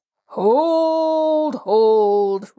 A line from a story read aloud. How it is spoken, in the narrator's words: roared Humdrum